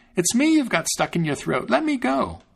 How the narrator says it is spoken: the little tailor exclaimed

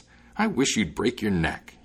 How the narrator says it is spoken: exclaimed

